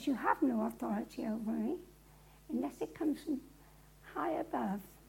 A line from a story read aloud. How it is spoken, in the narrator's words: Jesus calmly looks and says